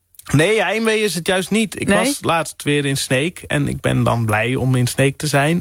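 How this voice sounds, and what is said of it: Frisian-accented Dutch. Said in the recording (Dutch): “hoor ik meteen meer Fries in je stem ... Dan wordt mijn accent direct getriggerd ... dan wordt dat accent meer aanwezig”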